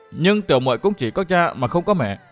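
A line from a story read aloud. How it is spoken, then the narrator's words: Soft, gentle. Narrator (Vietnamese): nhỏ nhẹ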